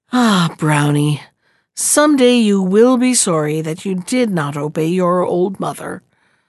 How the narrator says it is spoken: His mother often found fault with him for this, and would shake her head sadly and say

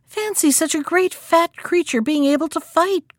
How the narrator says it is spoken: cried the hare

